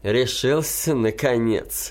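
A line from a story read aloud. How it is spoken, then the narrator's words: Laughing. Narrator (Russian): засмеялся мой друг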